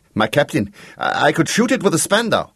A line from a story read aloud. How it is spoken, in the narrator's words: urged the gunner anxiously